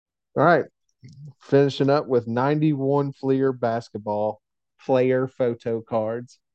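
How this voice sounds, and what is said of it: Usual voice. Nothing is said of it.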